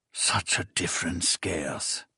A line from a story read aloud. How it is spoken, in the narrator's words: the Emperor whispered